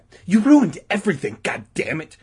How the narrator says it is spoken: she accused Todd angrily

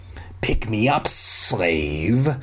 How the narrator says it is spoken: the dummy hissed

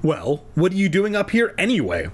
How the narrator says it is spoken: I sputtered

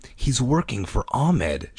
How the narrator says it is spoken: she whispered

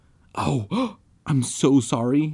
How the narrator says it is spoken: she cried

